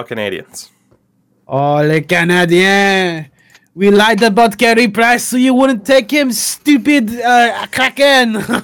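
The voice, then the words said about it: Put-on French-Canadian accent. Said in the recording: “this, is exactly what my my like 10 years of doing French immersion got me to. So I can do a perfect impersonation.”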